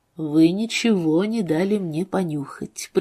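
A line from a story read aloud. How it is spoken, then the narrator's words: Quiet. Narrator (Russian): произнес Тейт тихо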